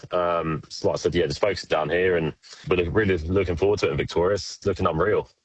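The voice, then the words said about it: British accent. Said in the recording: “you'd be able to tell from the accent I'm from the UK”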